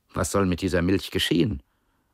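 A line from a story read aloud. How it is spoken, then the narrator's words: Plain question. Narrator (German): fragte eines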